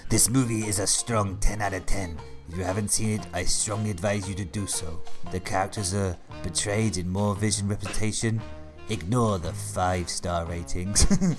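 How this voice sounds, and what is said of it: Exaggerated mixed European accent. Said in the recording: “That accent ... You managed to capture every European country in that”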